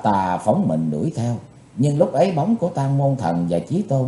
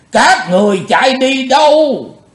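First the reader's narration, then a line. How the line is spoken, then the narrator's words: Loud roar. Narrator (Vietnamese): Bạch Phát Ma Cơ gầm to lên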